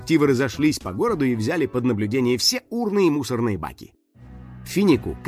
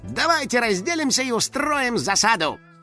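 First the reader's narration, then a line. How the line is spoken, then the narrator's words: Smirking command. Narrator (Russian): Финик хмыкнул и скомандовал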